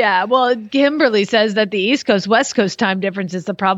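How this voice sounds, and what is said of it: Usual voice. Nothing is said of it.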